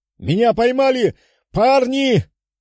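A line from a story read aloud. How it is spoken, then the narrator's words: Werewolf shouting. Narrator (Russian): прокричал замешкавшийся с превращением оборотень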